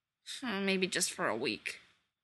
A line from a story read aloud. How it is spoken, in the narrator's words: he mumbled